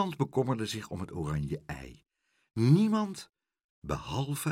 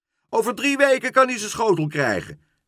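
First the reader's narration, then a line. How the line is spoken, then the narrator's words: Shout. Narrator (Dutch): schreeuwde Leentje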